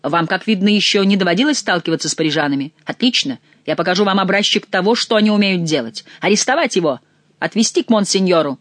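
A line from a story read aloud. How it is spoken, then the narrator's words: Angry guards yelling. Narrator (Russian): завопили обозленные стражники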